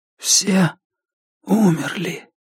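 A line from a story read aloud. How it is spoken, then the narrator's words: Whisper. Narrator (Russian): прошептал Мартин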